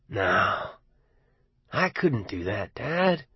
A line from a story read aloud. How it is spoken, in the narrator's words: Arnie said gently, as if speaking to a child